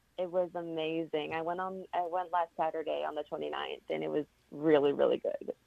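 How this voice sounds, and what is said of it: Strained, worn-out voice. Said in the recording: “my voice is not fully... ... still got party girl voice ... if I sound sick”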